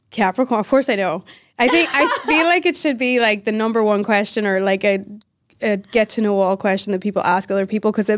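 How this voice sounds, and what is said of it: Irish accent mixed with American. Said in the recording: “accent, it's probably you'll hear the Irish in it. But if you hear like the American and it going back and forth”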